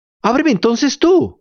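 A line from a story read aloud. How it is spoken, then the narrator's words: Crying, pleading shout. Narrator (Spanish): gritó Pinocho llorando e implorando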